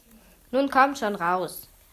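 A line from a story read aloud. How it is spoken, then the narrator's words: Called out. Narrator (German): rief Julebuck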